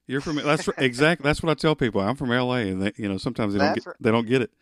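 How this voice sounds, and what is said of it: Southern US accent. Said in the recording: “I hear the accent ... I'm in Alabama. I'm south. ... You're a Southerner.”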